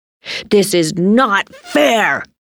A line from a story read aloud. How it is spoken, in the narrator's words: Timmy shouted